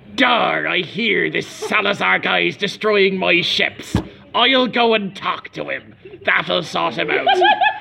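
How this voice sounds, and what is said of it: Geoffrey Rush impression as Barbossa. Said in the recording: “Can I do a Jeffrey Rush impression? ... That's like a really good audio”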